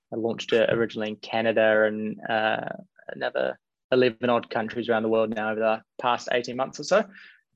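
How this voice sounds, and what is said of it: New Zealand accent. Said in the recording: “originally from New Zealand, hence the accent.”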